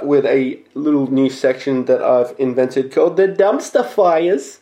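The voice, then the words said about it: Put-on Jewish Brooklyn accent. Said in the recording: “I used the Jewish Brooklyn accent there, but it just sounds fun”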